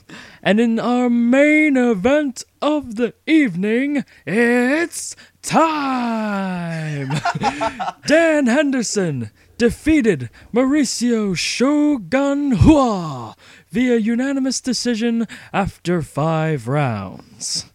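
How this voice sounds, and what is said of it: Fight announcer voice impression. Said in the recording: “That was the best impression I've ever heard you do ... the most accurate”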